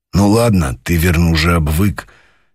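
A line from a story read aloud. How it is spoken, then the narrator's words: Serious and gruff. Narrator (Russian): серьезно и грубо сказал полковник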